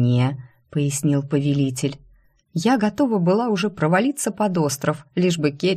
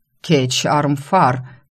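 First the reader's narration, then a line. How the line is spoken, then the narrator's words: Hot-tempered growl. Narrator (Russian): рыкнул вспыльчивый хозяин обители Цикорт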